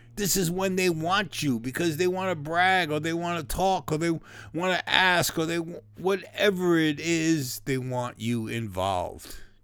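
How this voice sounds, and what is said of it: Hoarse, strained voice. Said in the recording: “my throat's getting a little hoarse here ... If you don't hear from me Wednesday, that means my voice is gone.”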